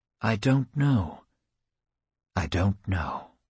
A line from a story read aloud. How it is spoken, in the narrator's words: laurel trees whisper